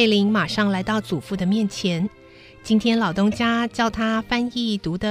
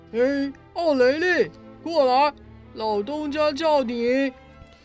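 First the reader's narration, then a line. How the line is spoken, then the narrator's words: Loud calling. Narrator (Chinese): 厂长大声地叫着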